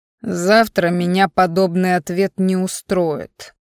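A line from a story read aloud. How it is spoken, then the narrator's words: Growl in face. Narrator (Russian): прорычал мне в лицо мужчина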